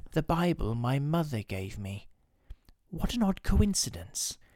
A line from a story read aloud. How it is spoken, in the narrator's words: He looked down uneasily and shivered slightly, as he murmured to himself